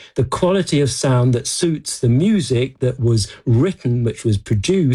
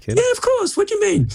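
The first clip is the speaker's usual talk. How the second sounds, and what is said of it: Suddenly high-pitched voice. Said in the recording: “Why has your voice gone up so high? ... why are you going up so high?”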